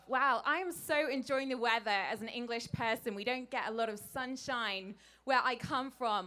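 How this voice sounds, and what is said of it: British English accent. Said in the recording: “Can anyone guess where this accent is from? ... Great Britain.”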